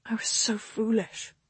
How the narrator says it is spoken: she mumbled into the front of his chest

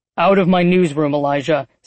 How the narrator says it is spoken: Celion barked

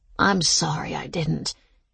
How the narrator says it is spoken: she said weakly

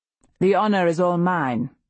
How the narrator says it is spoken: he says curtly

